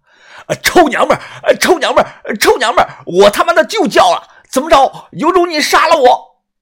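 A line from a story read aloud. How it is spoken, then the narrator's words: Loud shouting. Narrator (Chinese): 他大声的喊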